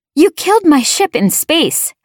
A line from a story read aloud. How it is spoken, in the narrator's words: I shouted at her